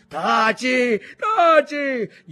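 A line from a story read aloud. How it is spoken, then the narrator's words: Brother shouting through clenched teeth. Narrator (Italian): gridò il fratello col coltello fra i denti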